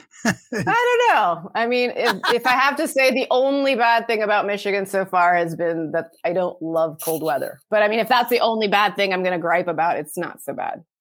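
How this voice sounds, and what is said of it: Mixed international accent, slightly English. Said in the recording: “your accent's not like any other accent ... you sort of become this word amalgamation of a lot of different sort of colloquialisms, accents ... I can hear a little English in you”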